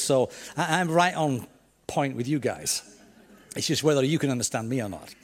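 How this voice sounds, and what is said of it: Yorkshire English accent. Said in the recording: “this strange Yorkshireman ... my accent”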